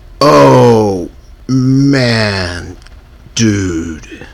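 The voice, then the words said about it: Stoner dude voice. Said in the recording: “I did a good Chad voice”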